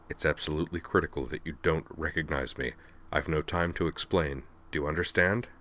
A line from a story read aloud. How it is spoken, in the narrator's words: he murmured over his shoulder